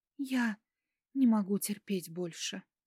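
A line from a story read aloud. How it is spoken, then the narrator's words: Whispered. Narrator (Russian): прошептала я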